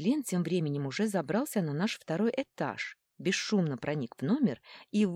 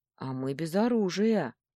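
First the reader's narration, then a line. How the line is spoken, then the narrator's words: Gloomy reply. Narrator (Russian): мрачно отозвался Евгений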